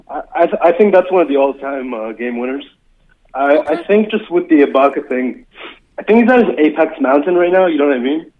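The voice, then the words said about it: Bill Simmons impression, slight Russian accent. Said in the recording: “Bill Simmons from Boston with a slight ... from Moscow accent”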